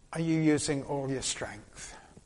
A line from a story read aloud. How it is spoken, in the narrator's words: said to him very gently